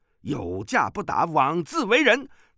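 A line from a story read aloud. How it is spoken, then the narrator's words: Shouting. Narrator (Chinese): 风波恶叫道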